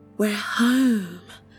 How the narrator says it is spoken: Rose whispered

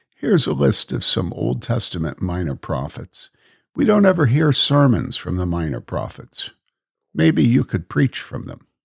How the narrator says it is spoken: her saying to me quietly

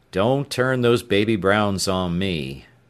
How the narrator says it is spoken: Horton said gloomily

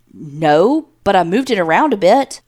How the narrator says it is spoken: He stammers

